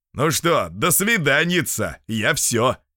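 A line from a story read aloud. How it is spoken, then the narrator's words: Joyful loud. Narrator (Russian): Петр Петрович пришел домой радостный и громко сказал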